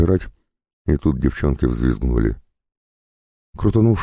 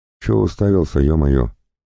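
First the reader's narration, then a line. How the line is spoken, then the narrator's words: Plain. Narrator (Russian): спросил лысый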